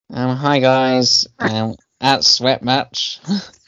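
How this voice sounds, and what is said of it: Nasal imitation of another person's voice. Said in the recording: “She said it's a bit nasally. ... That was awful.”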